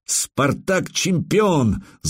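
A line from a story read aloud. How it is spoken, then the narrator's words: Angry shout. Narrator (Russian): злобно выкрикнул я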